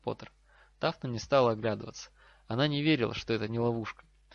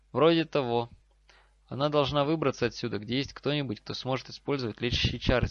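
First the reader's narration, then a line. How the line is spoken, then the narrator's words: Plain. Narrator (Russian): сказал Гарри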